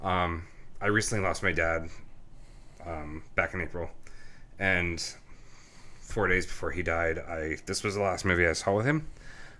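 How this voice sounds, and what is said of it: Emotional, tearful voice. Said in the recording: “I'm going to get a little emotional here... I'm like tearing up”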